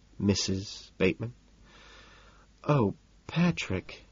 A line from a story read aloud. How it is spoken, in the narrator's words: she sighs, melting